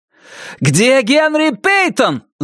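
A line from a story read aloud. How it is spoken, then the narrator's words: Yelled. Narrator (Russian): заорал Риджви к патрульному Прайсу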